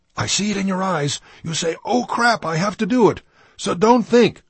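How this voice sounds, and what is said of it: Thick Danish accent. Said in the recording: “his thick Danish accent”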